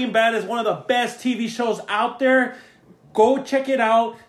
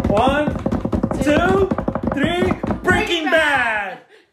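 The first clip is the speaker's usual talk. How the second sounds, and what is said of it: Yelling. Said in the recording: “I'm so sorry for yelling.”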